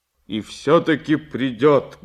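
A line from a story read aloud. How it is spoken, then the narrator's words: Loud. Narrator (Russian): громко сказал Сашка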